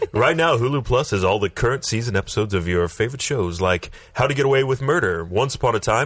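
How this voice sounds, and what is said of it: Announcer-style radio voice. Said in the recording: “Your radio voice. ... Radio voice.”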